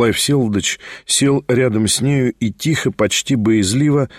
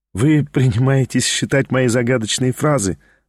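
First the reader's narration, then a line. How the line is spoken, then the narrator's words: Laughing. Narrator (Russian): засмеялась она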